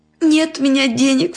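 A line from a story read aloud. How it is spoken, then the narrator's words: Girl sobbing. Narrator (Russian): всхлипнула девочка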